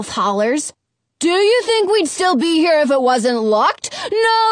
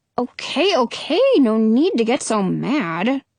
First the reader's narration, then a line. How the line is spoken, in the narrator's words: I mumble